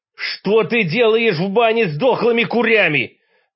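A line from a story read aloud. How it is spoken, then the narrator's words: Howling in disbelief. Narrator (Russian): взвыл я, поражаясь его трогательному тупоумию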